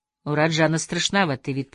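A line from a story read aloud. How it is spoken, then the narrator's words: Mutter. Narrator (Russian): пробормотал я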